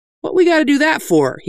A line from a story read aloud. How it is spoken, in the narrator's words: asked